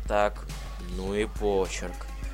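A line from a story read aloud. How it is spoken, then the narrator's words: Muttered. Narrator (Russian): пробормотал Пегас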